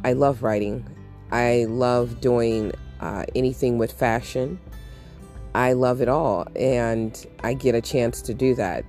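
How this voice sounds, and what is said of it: Voice sounds affected, not normal. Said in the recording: “I have allergies ... Please excuse my voice”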